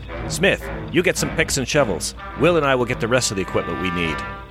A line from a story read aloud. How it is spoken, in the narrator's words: West, who barks